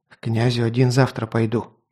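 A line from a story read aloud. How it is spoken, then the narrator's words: Whispered. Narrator (Russian): прошептал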